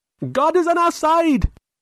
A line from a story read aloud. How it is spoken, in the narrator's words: he screamed